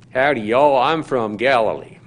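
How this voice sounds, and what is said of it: Put-on Texas drawl. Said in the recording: “Galilean accent ... we could pick a Texas accent up pretty easily, and identify it”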